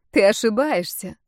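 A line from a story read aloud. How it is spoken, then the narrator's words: Laughing. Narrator (Russian): Эмерин засмеялась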